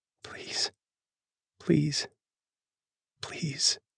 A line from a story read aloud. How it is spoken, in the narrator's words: she whispers